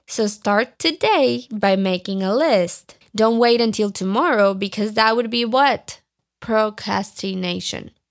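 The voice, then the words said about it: Speaks with an accent. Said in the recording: “And I'm probably not even saying it right. You can laugh at my accent.”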